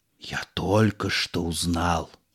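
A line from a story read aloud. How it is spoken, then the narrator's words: Whisper from the audience. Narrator (Russian): Шепот в публике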